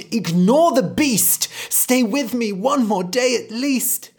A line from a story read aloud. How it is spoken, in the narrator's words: The mother cried